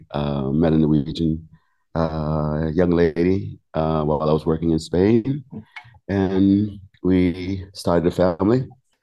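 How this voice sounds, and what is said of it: American accent, not Norwegian. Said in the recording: “your accent clearly isn't very Norwegian ... I'm American. I'm from Miami.”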